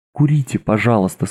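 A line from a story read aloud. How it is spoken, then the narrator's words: Magnanimous yet crushed voice. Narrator (Russian): сказала она великодушным и вместе убитым голосом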